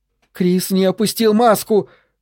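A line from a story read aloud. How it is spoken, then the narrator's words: Shout. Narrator (Russian): крикнула Джессика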